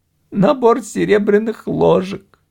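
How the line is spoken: Sobbing. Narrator (Russian): всхлипывая, произнесла Линда

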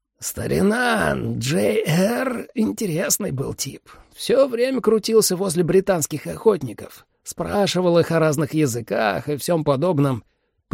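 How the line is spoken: Wheezed hoarsely. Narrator (Russian): просипел Шеклфорд-старший

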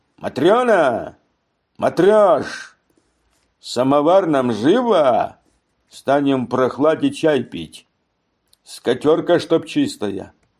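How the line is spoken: Shrill unpleasant shout. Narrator (Russian): крикнул пронзительным и противным голосом

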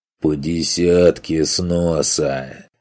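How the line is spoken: Hoarse growl. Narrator (Russian): хрипло прорычал зверобог с головой шакала

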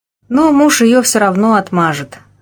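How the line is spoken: Sigh, lion cub. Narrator (Russian): вздохнул львенок

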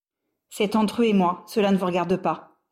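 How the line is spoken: Curt, sharper than intended. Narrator (French): répliqua-t-il plus sèchement qu'il ne l'aurait voulu

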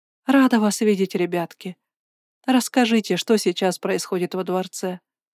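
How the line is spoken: Quiet hopeful request. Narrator (Russian): тихо попросила я, вглядываясь в них с надеждой

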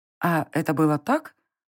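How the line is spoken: Uncertain. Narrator (Russian): уточнила я неуверенно

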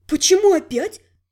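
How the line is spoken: Indignant question. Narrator (Russian): возмущенно спросила Элька

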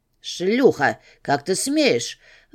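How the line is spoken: Angry roar. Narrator (Russian): взревел капитан

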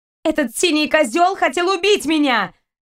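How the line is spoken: Shout. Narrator (Russian): выкрикнула Кристина

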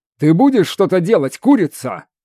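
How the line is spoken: Barked. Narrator (Russian): рявкнул скиталец

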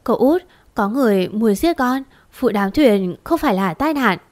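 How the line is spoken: Hesitant, frightened voice. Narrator (Vietnamese): Ngà do dự một lúc rồi cất giọng sợ hãi

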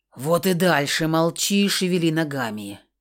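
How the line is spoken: Growled through teeth. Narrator (Russian): прорычал сквозь зубы Бронзовый

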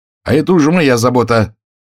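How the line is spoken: Angry. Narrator (Russian): сердито сказал

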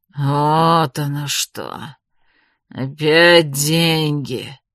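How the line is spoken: Mayor, through gritted teeth. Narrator (Russian): процедил сквозь зубы мэр

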